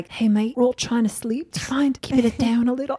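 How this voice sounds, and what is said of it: Attempted British accent sounding Australian. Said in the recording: “I like your Australian accent. ... I love how you did the Australian. ... That was actually supposed to be British. ... Well, that sounded Australian. All of us took it for Aussie.”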